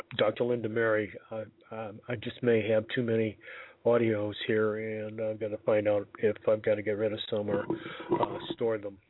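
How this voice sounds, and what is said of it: Hoarse, strained voice. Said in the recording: “I'm losing my voice again”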